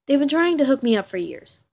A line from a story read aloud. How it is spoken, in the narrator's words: Cass all of a sudden blurts out